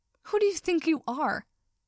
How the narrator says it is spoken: shouted one last time

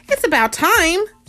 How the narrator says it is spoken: Spidey exclaimed

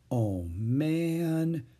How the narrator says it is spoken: Jack whispered

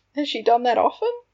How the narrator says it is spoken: Tongues asked, chuckling

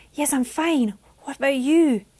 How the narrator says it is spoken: gasped

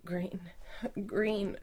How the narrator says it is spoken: she whimpered

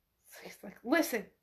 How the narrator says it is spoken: she whispers

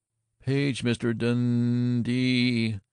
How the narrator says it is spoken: intoned Eddie Swanson

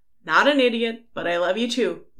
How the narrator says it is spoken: Louis called out after him

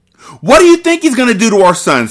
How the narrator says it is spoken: He shouted

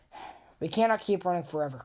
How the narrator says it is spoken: Copper panted

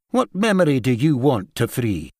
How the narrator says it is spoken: cut him off quite curtly

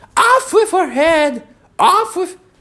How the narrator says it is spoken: The queen turned crimson with fury, screamed

